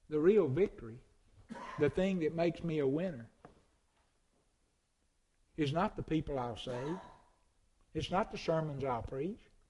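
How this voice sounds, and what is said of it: Strong rural Southern hillbilly accent. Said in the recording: “this old crazy hillbilly accent”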